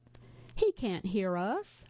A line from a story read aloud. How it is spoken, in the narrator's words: I sighed